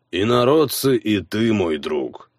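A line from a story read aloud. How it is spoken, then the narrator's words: Dying man's grim chuckle. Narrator (Russian): мрачно усмехнулся умирающий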